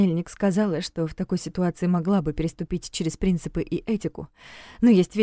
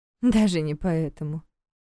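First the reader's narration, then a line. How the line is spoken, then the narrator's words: Sad wry smile. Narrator (Russian): грустно усмехнулась Регина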